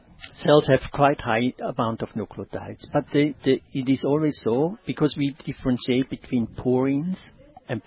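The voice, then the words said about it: Swiss German accent. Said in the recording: “he's a Swiss German. That's why his accent is so delectable. ... he sounds like a scientist”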